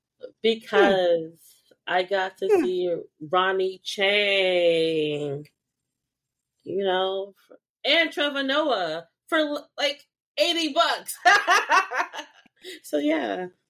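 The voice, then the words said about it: Hoarse, fading voice. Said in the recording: “losing my voice now”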